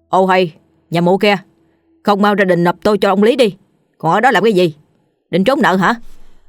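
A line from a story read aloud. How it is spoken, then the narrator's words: Loud bawling from outside. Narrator (Vietnamese): ngoài kia tiếng thằng Dần, tay sai đắc lực của lão Lý, đã hét ông ổng vào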